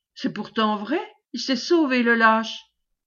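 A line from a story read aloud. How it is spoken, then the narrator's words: Stammering. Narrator (French): bégaya Macquart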